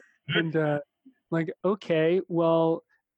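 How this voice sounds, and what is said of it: Usual voice. Nothing is said of it.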